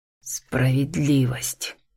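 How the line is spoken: Hoarse rasp. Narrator (Russian): хриплю

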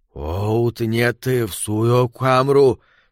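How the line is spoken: Wheezing dying voice. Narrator (Russian): сказал Перси своим хрипящим, умирающим голосом

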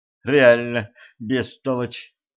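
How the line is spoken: Heartfelt exhale. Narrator (Russian): с чувством выдохнула Женька

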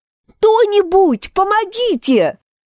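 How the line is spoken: Shouting over storm. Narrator (Russian): Глушимая буря вновь закричала мисс Уокер

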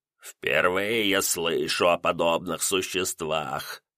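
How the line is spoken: Creaky, raspy voice. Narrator (Russian): скрижащущим голосом произнес полуворон

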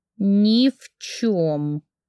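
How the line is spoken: Through gritted teeth. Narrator (Russian): ответила я сквозь зубы

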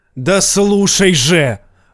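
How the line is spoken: Furious bark. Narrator (Russian): рявкнул он, взбешенный подобным предположением

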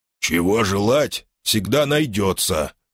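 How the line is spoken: Mumbling. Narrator (Russian): Кое-как пробурчал я

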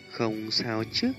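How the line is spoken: Gentle, pained. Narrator (Vietnamese): Huân Nhi nhẹ nhàng, không khỏi đau lòng, nói

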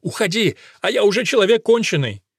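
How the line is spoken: Injured brother's shout. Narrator (Russian): брат подвернул ногу и крикнул Геросу

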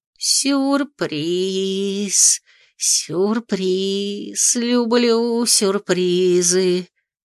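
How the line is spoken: Singsong drawl. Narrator (Russian): нараспев протянула Анатрана

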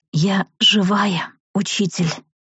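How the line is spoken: Hoarse rasp. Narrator (Russian): прохрипела

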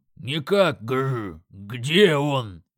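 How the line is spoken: Roaring. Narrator (Russian): взревел Крак

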